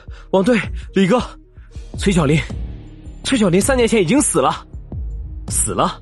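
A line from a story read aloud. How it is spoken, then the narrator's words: Breathless. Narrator (Chinese): 一名年轻的警察气喘吁吁道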